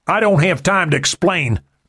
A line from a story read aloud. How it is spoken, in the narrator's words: Murphy yelled